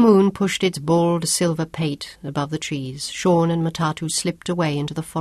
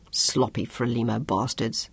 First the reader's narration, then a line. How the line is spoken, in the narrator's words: Sean muttered